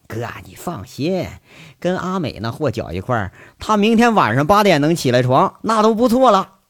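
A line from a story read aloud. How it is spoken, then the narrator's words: Laughing. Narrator (Chinese): 那小五血笑说一句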